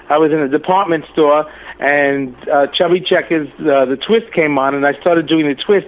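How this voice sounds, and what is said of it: New York accent. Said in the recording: “I love your accent ... you really have a cool accent. That's really sexy. ... It's New York. I was born in Manhattan, raised in Brooklyn, living on Staten Island”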